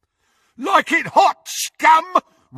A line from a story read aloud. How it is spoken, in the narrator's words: roared Crabbe as he ran